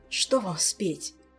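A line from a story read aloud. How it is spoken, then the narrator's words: Hoarse, breathy. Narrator (Russian): Хрипло выдохнул Кантор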